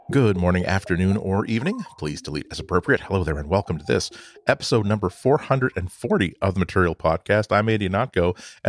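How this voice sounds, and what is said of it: Soft, measured late-night radio voice. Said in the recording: “I'm talking in my after-hours NPR voice ... that cough is still kind of lingering. And the less stress I put on my voice ... make sure that I speak in a measured tone”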